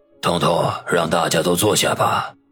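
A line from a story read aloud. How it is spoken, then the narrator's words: Old man, hoarse voice. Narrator (Chinese): 老者声音沙哑的说道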